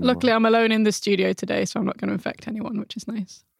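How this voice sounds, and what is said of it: Hoarse voice. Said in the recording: “I still have a little bit of whatever plague that has been plaguing me for the past few weeks ... my voice is a bit hoarse.”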